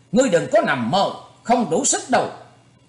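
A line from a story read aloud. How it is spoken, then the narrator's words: Angry shout. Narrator (Vietnamese): Thanh niên kia giận dữ quát lên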